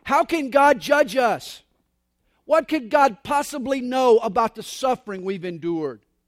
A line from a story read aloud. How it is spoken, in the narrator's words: One man screams out